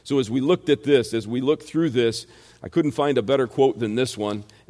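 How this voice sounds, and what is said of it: Rural American country accent. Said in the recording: “the country boy uh, American accent that I have for you, little country bumpkin”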